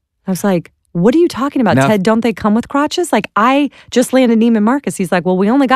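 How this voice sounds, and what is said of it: Usual voice. Nothing is said of it.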